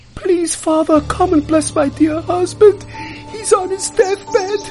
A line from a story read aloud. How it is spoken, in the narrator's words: she pleads